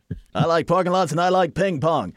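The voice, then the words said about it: Imitates another person's voice. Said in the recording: “That's my impression of you... Probably sound nothing like that”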